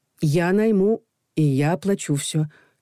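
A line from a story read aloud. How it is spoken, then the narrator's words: Soft. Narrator (Russian): мягко произнес Саша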